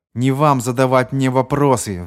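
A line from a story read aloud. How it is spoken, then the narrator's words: Roaring. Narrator (Russian): взревел Маккомб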